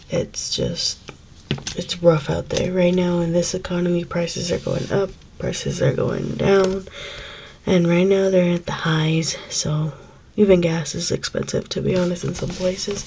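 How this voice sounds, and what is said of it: Sick, weird-sounding voice. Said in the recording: “I'm very sick. I'm so sorry if my voice sounds really weird”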